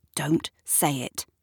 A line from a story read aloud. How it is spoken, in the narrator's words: says Shirley quietly